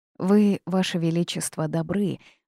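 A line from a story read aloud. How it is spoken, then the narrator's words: Sighing. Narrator (Russian): вздохнул птиц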